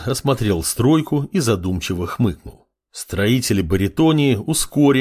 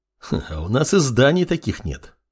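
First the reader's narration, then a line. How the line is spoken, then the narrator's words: Snort. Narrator (Russian): хмыкнул боевой канунг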